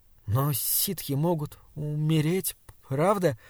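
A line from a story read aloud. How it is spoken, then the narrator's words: Cautious, halting question. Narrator (Russian): спросил он осторожно, проклиная свою закоченевшую, запинающуюся речь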